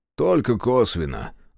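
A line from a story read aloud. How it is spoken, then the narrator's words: Sighing. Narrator (Russian): вздохнул Трипалов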